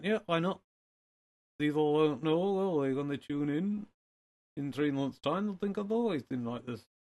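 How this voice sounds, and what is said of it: Put-on northern English accent. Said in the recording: “Are we going to go with the northern accent? ... It does help distinguish you from the others. That was an absolute spur-of-the-moment decision”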